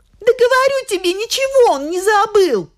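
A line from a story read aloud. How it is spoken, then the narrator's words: Woman shouting. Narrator (Russian): закричала жена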